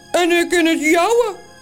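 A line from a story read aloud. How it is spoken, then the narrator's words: Calling in another's voice. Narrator (Dutch): roept de andere Toos met de stem van Morrel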